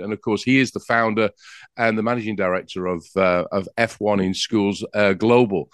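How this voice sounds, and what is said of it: English accent. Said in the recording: “I'm from England with that accent that I have”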